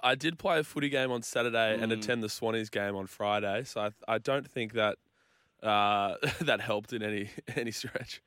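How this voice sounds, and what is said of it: Slightly croaky, recovering voice. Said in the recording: “lost my voice. You can probably hear it still a little bit croaky”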